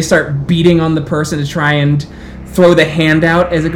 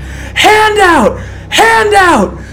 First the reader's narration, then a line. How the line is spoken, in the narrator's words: starving individuals they scream